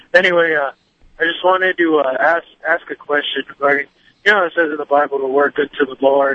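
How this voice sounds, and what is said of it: Rough, messed-up sore-throat voice. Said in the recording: “Sorry if my voice is all messed up. I woke up, my throat was hurting.”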